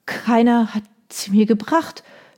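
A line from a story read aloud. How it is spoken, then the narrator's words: Stammered. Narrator (German): stammelte sie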